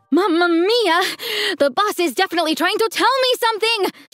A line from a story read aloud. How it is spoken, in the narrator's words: screamed